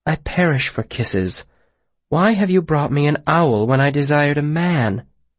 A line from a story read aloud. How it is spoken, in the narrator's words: She sighed